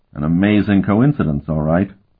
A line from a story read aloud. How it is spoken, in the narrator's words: Sparhawk said dryly